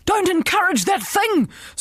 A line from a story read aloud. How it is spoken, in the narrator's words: screamed the principal